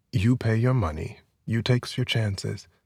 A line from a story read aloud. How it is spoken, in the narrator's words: the trader said